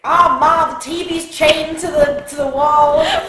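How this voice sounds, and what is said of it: New York Jewish accent impression. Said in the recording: “Flawless Jared Leto impression. Also, he does have a ridiculous accent ... It's just like that Jewish ... It's very Jewish, like this from New York.”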